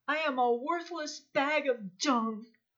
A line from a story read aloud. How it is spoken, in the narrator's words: I was wallowing in regret and wailed to the Lord